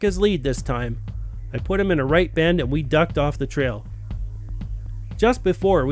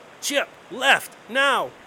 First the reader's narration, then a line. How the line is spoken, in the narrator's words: hollered